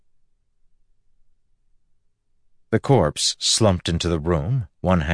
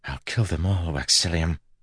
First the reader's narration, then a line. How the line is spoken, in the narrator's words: whispered